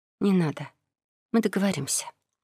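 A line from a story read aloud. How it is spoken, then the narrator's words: Soft speech. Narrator (Russian): мягко произнесла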